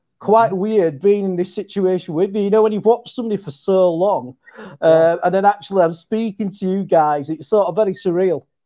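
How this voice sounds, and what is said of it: West Yorkshire English accent. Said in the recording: “Is that as Tooch put up, a Yorkshire accent? ... it is. ... I'm from West Yorkshire ... So I've got like a West Yorkshire accent.”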